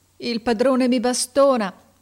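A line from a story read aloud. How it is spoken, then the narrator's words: Sobbing. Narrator (Italian): disse singhiozzando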